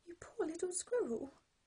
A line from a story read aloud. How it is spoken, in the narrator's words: cried Frog